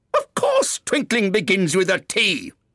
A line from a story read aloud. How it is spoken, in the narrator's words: said the King sharply